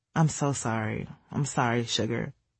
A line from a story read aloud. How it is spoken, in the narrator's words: she said softly